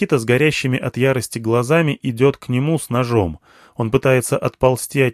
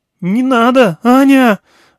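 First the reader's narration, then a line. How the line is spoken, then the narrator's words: Shriek. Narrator (Russian): взвизгнул Белохический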